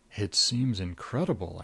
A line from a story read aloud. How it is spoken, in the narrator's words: I murmured